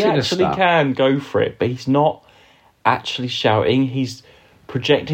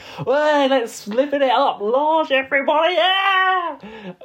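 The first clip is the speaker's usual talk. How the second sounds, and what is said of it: Shouting, imitating another person's voice. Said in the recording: “That shouting and not projecting right your voice.”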